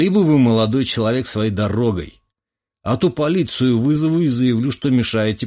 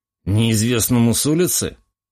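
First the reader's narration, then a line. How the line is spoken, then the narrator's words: Snorted. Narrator (Russian): хмыкнул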